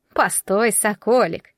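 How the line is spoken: Laughing old witch. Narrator (Russian): засмеялась Яга

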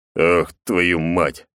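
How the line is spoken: Cursing. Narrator (Russian): выругался Наир

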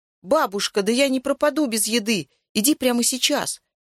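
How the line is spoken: Shout. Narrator (Russian): закричал я

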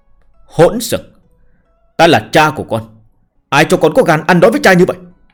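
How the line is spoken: Angry father shouting. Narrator (Vietnamese): Tòa Như Lai nổi giận quát

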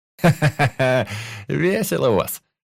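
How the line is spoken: Laughing. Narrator (Russian): рассмеялся я

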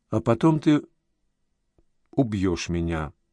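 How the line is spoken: Quiet. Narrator (Russian): тихо проговорила Галя

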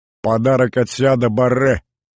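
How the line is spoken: Laughing remark. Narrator (Russian): хохотнул Кортес

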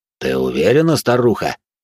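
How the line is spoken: Menacing voice. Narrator (Russian): грозно произнес Спад

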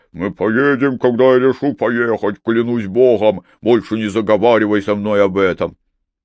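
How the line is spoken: Muffled growl. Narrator (Russian): он просто глухо прорычал

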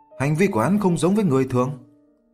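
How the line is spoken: Sighing question. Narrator (Vietnamese): Diệp Chi Thu thở dài hỏi

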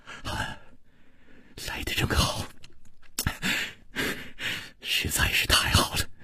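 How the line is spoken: Gentle, soft. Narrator (Chinese): 楚留香柔声说

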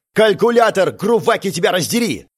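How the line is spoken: Barked. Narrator (Russian): рявкнул я

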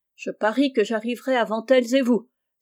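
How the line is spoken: Exclaimed. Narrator (French): s'écria Rose

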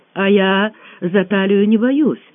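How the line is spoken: Joyful exclamation. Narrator (Russian): радостно воскликнула Маня

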